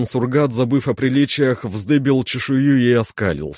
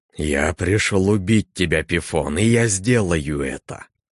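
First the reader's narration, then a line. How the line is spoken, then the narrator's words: Hissing. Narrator (Russian): прошипел он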